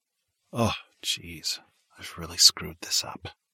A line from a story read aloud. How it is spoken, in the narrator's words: he said in a whisper